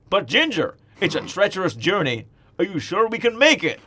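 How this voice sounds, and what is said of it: Put-on American accent. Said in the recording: “I'll do my Okay. American accent.”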